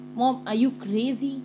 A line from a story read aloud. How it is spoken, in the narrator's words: I exclaim